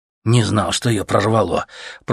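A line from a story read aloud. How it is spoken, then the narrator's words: Grumbling mutter. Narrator (Russian): пробурчал Леха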